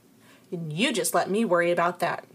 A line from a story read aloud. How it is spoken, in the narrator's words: I snapped